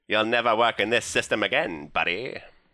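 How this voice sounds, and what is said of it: Nasal 1920s Mid-Atlantic accent. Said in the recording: “that accent is called the Mid-Atlantic accent. ... The 1920s. ... the accent you hear like on that nasally radio guy. Voice.”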